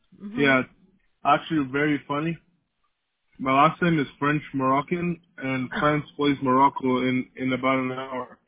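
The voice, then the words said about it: Slight foreign accent. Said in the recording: “you have a little accent, a little bit.”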